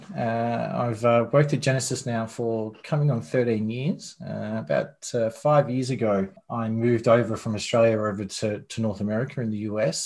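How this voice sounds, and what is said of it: Australian accent. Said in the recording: “your accent ... Australian born”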